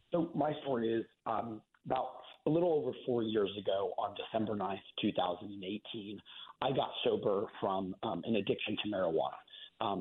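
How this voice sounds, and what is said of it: Slightly hoarse voice. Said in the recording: “I'm just getting over a bit of a hoarse voice here”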